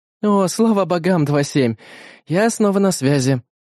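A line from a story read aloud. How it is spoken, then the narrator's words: Relieved sigh over monitor. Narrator (Russian): Глубоко вздохнув, произнесла Бета из окошка в его мониторе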